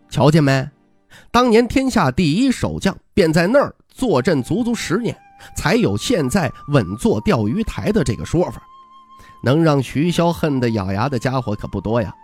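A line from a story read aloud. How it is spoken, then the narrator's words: Suppressing laughter. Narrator (Chinese): 徐凤年忍住笑意，眯眼道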